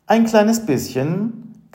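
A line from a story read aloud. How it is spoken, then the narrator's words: Giggling admission. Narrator (German): gab sie kichernd zu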